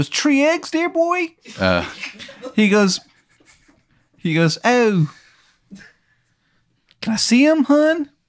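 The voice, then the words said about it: Bad put-on Maryland accent. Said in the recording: “dumb fucking idiot from Maryland. And he has a terrible accent.”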